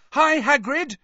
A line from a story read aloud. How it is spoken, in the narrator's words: Harry yelled